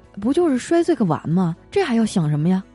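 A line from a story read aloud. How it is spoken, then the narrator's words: Flat, indifferent. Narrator (Chinese): 我嫂子淡淡的说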